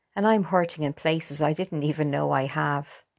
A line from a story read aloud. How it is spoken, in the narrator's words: laughed Paula, trying to put a brave face on it